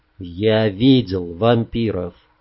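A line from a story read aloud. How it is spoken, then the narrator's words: Simple quiet reply. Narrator (Russian): просто и тихо ответил черноволосый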